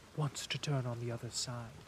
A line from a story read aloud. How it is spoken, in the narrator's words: whispered the servant